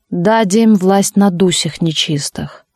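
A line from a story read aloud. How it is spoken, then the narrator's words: Deep bass voice. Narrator (Russian): Какой-то дьячок басом сказал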